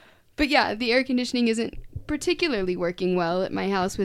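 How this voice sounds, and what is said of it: Usual voice. Nothing is said of it.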